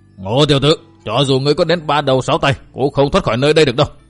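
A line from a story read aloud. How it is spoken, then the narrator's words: Furious tiger-like roar. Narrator (Vietnamese): Lão ma đầu cả giận gầm lên một tiếng như cọp trống, thét lớn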